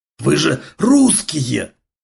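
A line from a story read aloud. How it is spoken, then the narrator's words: Hoarse wheezing. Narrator (Russian): хрипел он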